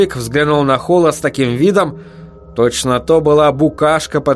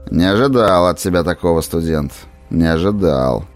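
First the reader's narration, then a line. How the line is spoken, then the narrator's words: Grumbling. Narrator (Russian): пробурчал он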